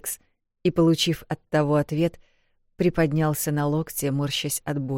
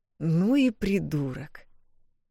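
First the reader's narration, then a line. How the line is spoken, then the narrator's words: Drawled. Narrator (Russian): Протянул Пирс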